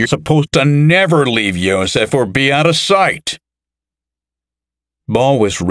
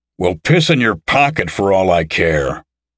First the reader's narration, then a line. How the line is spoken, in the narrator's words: snarled Carnegie